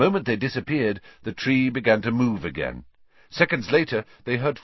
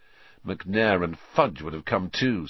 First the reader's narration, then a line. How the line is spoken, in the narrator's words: said Harry bitterly